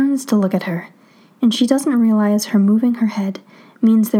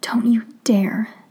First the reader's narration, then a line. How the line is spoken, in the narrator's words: she whispers